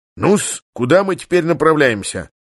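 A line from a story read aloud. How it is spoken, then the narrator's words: Brisk question over intercom. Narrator (Russian): бодро осведомился по переговорнику пан Станислав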